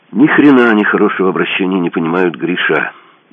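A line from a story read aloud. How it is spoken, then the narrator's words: Sad statement. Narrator (Russian): грустно констатировал один из подручных верзилы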